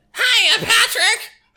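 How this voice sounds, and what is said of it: Cartoon character voice impression. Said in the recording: “impersonations ... This is my SpongeBob talking to Patrick. I will be both of them. ... That's pretty good.”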